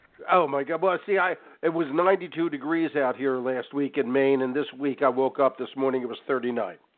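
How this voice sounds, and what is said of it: Congested voice from a cold. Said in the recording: “Sorry about my cold. I sound terrible.”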